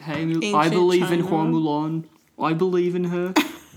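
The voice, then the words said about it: Put-on New Zealand accent. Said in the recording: “have a New Zealand accent?”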